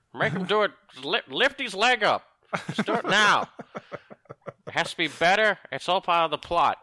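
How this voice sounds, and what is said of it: Imitates another person's voice. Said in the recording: “do a better George Lucas impression.”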